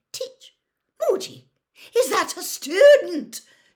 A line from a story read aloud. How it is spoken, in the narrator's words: shrieked Professor McGonagall